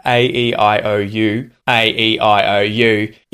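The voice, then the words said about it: Nasalized general Australian vowel sounds. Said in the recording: “it's just nasalization, really, that I'm putting over the top of my normal accent to change the quality of those vowel sounds ... that's a general accent”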